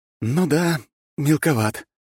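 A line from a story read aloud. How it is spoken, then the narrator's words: Sighing. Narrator (Russian): вздохнул я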